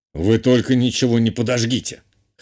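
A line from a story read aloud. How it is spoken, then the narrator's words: Pleased snort. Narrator (Russian): хмыкнул Журбер, чем-то необычайно довольный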